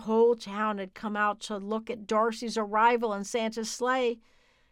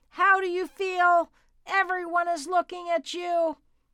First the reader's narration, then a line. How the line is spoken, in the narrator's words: Mildred screamed up at the sleigh